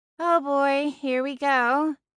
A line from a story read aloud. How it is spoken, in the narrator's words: Celine sighed